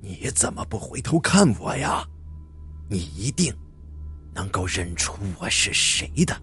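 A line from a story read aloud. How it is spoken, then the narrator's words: Old, hoarse, repeating voice. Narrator (Chinese): 那个苍老而又嘶哑的声音再次出现了，他依旧在重复着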